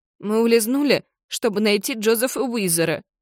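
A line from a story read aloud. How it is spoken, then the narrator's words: Sobbing. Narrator (Russian): всхлипывает Джардин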